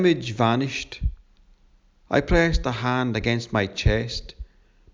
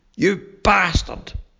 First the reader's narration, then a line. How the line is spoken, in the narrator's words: spat